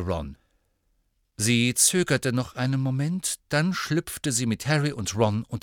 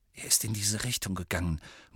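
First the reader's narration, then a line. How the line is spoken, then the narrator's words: Very quiet murmur. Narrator (German): murmelte Harry so leise wie möglich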